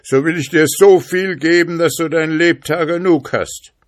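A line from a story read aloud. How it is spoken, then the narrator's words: Spirit calling out. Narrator (German): rief der Geist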